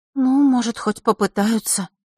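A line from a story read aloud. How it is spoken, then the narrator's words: Uncertain reply. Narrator (Russian): неуверенно ответила ему Василиса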